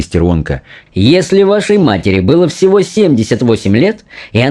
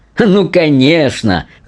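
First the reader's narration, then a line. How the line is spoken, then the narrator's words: Laughing. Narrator (Russian): засмеялся мистер Уонка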